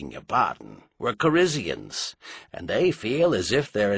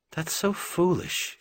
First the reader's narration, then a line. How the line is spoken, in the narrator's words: she said sadly